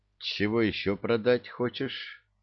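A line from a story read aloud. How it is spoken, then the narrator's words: Weary question. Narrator (Russian): устало спросил Мудрецкий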